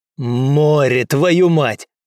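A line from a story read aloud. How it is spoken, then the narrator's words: Guard's bark. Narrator (Russian): гаркнул охранник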